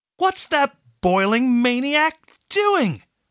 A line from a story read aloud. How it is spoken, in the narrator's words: Fasha shouted